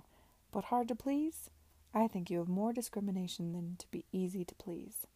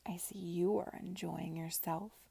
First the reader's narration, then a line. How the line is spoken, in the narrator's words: she said to him in a sarcastic undertone